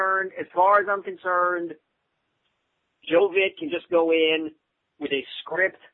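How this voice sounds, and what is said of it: Usual voice. Nothing is said of it.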